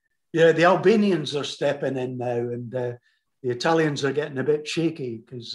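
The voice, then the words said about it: Slight Scottish accent. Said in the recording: “You're slightly, with the Scottish accent.”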